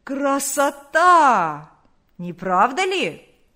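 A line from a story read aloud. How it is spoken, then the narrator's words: Hoarse shout. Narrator (Russian): Крикнул он хриплым голосом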